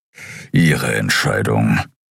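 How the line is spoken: Grumbling. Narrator (German): brummte Keru

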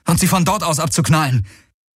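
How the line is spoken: Calling out. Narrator (German): rief Garland

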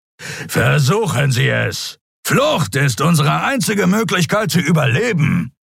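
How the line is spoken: Growled. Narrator (German): knurrte Sron

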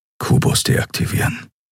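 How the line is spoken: Whisper. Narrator (German): flüsterte er

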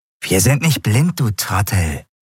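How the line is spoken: Hissing snarl. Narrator (German): fauchte eine andere Stimme

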